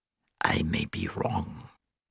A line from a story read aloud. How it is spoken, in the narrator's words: Lutzmann said hoarsely